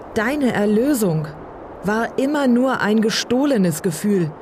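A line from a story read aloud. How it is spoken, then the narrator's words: Shouting over roaring storm. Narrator (German): rief er Uliana gegen das Tosen am Himmel entgegen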